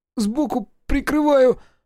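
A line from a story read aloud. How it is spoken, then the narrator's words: Squeaked. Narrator (Russian): пискнул Колька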